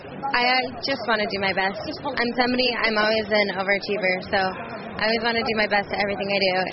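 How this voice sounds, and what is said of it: American accent. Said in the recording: “with her unmistakable American accent”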